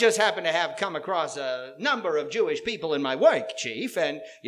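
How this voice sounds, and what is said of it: Usual voice. Nothing is said of it.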